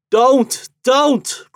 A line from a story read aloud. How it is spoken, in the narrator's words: cried his father and mother